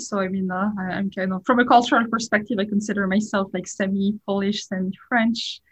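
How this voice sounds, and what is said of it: French accent in English. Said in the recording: “you can certainly tell I'm French from my accent. I'm sure it's kind of hard to hide”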